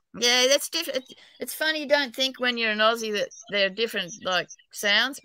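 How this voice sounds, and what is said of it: Australian accent. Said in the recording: “your accent ... I'm an Aussie, New South Wales ... I've got a terrible accent even in Australia ... my accent's pretty bad”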